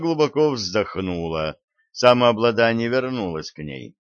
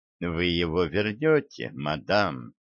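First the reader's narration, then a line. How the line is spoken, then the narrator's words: Soft reply. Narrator (Russian): мягко ответил Хинкль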